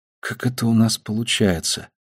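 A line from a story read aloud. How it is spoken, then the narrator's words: Muttering. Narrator (Russian): пробормотала она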